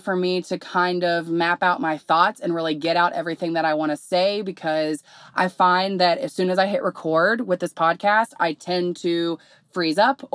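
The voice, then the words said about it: Hoarse voice. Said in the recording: “apparently I'm losing my voice. That's what it's feeling like. So if I sound hoarse, ... I had the flu this past week.”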